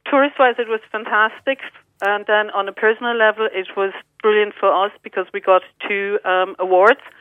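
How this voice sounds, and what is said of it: German accent. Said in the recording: “I can hear the accent still. You still have the German accent.”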